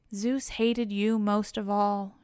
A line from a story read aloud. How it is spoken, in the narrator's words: she says